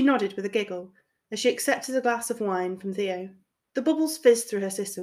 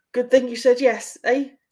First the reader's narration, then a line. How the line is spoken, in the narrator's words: he chuckled nervously